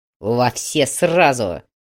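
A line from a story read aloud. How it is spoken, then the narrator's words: Harsh barked shout. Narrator (Russian): Грег рявкнул так, что командир передовой группы прикусил язык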